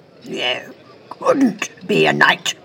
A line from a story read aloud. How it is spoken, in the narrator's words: snorted Sir Guy